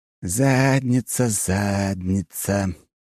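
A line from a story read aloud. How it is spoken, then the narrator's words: Nervous singsong. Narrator (Russian): нараспев и очень нервно повторил Фирсов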